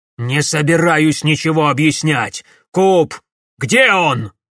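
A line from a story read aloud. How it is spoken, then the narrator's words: Fat man barking. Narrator (Russian): рявкнул толстяк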